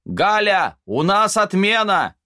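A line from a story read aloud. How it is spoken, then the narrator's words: Shout. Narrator (Russian): Она тут же крикнула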